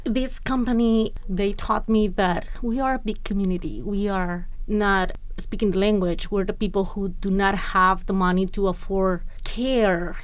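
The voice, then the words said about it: Speaks English with an accent. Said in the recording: “I have an accent.”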